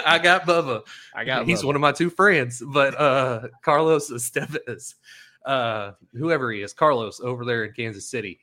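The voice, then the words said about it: Speaks with a noticeable regional accent. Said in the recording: “You listen to my accent.”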